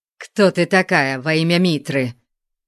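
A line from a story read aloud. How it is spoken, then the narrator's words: Rude question. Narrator (Russian): грубо спросил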